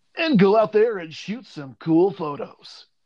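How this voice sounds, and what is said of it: Radio announcer voice. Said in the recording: “in my radio voice”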